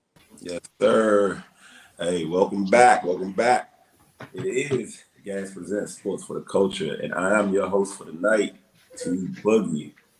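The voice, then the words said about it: Hoarse, strained lost voice. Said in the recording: “Lost my voice this weekend, so y'all got to bear with me... Voice only sore”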